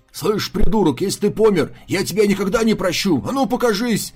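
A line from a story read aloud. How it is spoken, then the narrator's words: Yelling. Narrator (Russian): Орал Лупяо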